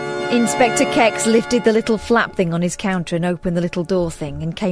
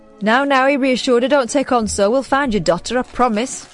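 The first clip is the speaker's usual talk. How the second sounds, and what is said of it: Put-on accent reading a character. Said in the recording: “Good accent.”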